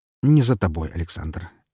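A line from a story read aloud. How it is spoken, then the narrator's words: Gentle correction. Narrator (Russian): мягко поправил меня Смородин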